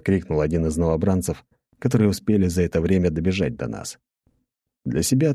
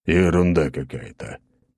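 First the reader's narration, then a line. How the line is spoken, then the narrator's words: Grumbling. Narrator (Russian): проворчал Аршавин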